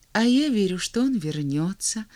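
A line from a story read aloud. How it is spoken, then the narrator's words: Calm reply. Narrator (Russian): спокойно отвечала вторая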